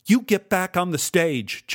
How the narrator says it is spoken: Joan shouted

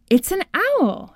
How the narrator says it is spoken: exclaimed

